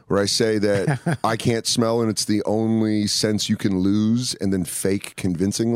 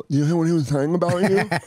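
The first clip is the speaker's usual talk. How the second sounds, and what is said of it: Imitates a deaf person's speech. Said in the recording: “do a sick deaf impression”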